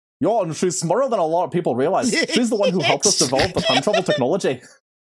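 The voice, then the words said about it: Put-on Irish accent, edging Scottish. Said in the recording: “Ah, that's edging into Scottish. ... why do you have an Irish accent?”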